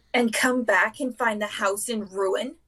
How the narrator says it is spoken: She snarled

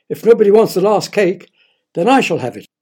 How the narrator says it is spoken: Roger shouted

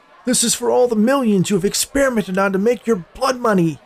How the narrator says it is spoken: shouted at Forrest

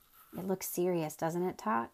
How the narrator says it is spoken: said Milo very sadly

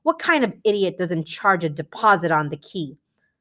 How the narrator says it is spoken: Yao exclaim

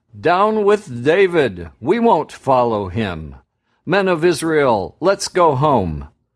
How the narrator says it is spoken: called out

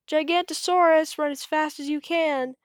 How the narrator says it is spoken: Bonehead cried

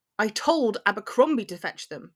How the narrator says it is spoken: Draco snaps

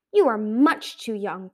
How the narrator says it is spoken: Coral said sternly

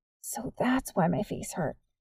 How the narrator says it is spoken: Nick said in a raspy whisper

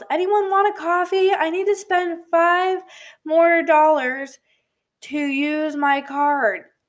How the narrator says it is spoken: a girl yelled

